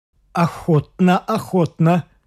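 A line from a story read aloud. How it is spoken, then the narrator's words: Stammering. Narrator (Russian): запинаясь, проговорил он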